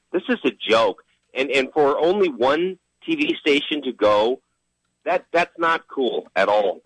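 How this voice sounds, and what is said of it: Excited, pumped-up energetic voice. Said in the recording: “Iowa fans are pumped up, as you can tell by my voice.”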